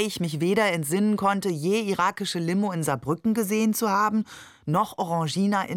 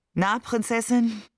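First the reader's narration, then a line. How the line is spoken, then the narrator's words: Tired, smiling question. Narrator (German): fragte er mich müde lächelnd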